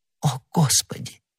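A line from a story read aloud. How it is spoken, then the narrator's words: Whisper. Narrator (Russian): прошептала она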